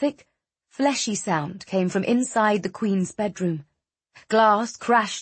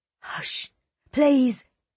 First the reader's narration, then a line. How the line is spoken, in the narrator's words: Simon whispered